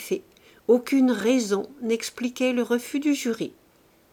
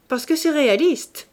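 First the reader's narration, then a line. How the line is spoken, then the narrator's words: Cutting, ambiguous voice. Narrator (French): dit Fagerolles, d'une voix si tranchante qu'on ne pouvait savoir s'il blaguait le jury ou le tableau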